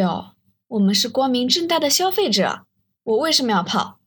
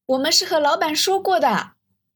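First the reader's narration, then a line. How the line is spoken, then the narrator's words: Calling loudly across distance. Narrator (Chinese): 贝贝大声朝着山那边回复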